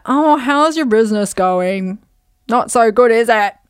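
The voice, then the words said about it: Vague put-on accent, uncle character. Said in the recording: “I don't even know what accent that's supposed to be.”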